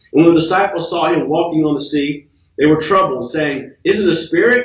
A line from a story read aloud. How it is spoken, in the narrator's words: They cried out for fear